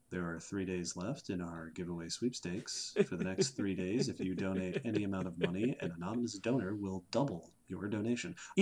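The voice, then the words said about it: Public radio announcer voice. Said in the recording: “now we're shifting into NPR ... NPR voice.”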